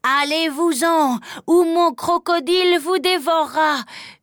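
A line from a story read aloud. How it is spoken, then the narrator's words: Yelled. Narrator (French): hurle Pierre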